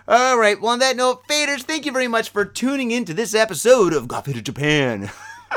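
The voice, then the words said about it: Strip club DJ announcer voice. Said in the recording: “that's my strip joint DJ voice”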